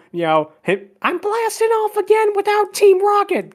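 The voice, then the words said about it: Poor imitation of cartoon character voice. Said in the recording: “Terrible impression.”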